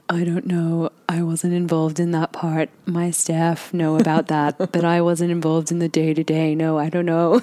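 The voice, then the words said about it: Put-on deep voice imitating another person. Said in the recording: “puts on a deep voice ... That's how she talks ... such a good impression.”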